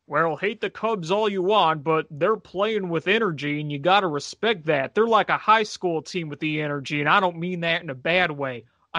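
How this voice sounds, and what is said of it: Bad impression of a sportscaster. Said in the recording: “doing a really bad Tom Brenneman impersonation”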